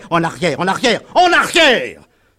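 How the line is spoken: Farmer yelling. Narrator (French): hurlait un cultivateur

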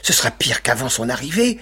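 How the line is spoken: Several voices exclaiming. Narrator (French): s'écrièrent-ils

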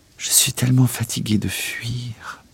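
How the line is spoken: Murmured. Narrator (French): a murmuré Elisabeth

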